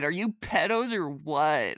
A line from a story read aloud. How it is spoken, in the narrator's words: I screamed